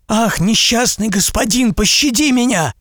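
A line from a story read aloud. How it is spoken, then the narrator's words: Frightened cry. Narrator (Russian): испуганно вскричал купец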